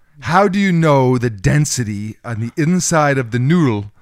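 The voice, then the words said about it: Put-on Zoolander-style accent. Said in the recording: “You hear that accent I gave him? ... It sounds like the Zoolander.”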